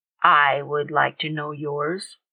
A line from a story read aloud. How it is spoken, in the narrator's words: Reginald said in a steady voice